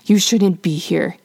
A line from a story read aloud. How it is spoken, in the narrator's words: he hisses